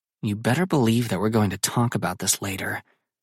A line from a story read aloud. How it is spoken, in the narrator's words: Sydney mutters under her breath so only I can hear